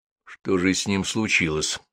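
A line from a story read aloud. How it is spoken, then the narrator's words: Thoughtful question. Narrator (Russian): задумчиво спросил Гуров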